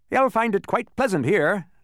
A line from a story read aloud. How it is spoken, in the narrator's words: chuckled the policeman